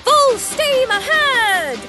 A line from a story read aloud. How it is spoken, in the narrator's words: Thomas yelled